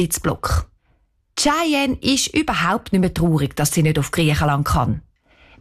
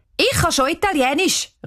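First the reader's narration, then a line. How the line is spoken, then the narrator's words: Called out. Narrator (German): ruft Cheyenne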